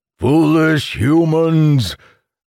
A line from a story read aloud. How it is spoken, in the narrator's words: the monster bellowed